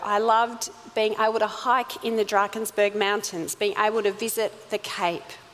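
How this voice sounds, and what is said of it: Australian accent. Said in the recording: “my gorgeous Aussie accent when they expected me to still sound like a little South African”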